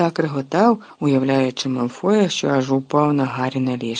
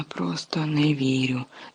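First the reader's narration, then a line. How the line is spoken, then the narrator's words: Whisper. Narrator (Ukrainian): шепотів Гаррі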